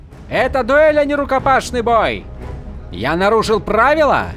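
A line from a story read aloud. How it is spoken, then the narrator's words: Shouted back. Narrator (Russian): прокричал в ответ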